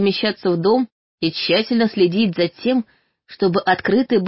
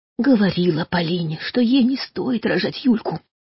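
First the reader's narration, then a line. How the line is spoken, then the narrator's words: Quiet secretive telling. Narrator (Russian): тихонько рассказывала тетя Аня, будто не хотела, чтобы кто-то услышал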